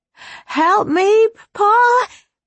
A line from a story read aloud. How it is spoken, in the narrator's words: she cried out